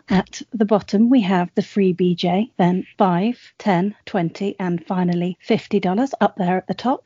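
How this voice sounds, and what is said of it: Proper posh British accent. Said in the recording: “her beautifully proper British accent ... posh”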